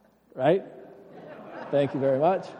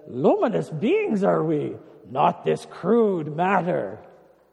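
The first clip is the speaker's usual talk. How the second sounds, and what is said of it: Yoda character voice impression. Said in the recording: “my best Yoda impersonation.”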